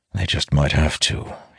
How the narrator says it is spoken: he mutters

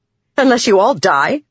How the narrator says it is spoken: Navani snapped

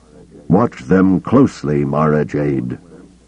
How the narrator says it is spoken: Kabal said, his voice hard yet strangely wistful

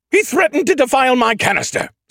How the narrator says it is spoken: Skippy screeched

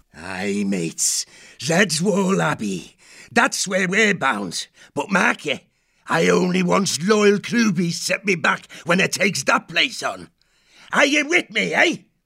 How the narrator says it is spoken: the crew roared aloud

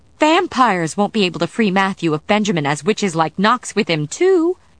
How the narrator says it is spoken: Sarah exclaimed

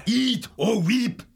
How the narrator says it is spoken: One of the rats shouted at the pair

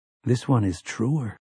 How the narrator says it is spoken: whispered another, even deeper

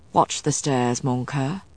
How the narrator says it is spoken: he murmured

